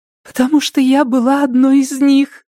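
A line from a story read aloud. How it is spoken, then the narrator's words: Sobbing. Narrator (Russian): всхлипнула Рэйчел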